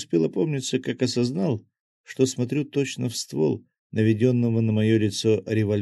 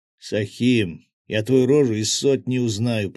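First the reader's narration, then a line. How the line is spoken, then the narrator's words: Growling thug. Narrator (Russian): прорычал мордоворот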